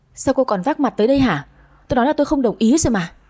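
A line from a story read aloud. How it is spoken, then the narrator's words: Loud angry shout. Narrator (Vietnamese): Anh quát ầm lên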